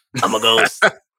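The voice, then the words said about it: Raspy ghost character voice. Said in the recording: “a little raspy this time.”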